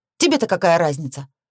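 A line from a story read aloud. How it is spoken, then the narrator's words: Angry snap. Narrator (Russian): огрызнулась я сердито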